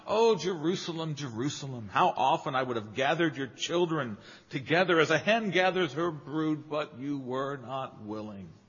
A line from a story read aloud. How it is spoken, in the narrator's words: He cries out